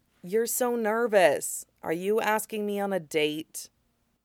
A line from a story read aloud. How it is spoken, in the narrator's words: asked quietly